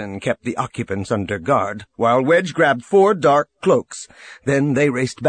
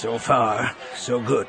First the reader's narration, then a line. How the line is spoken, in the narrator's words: Wedge said, his voice low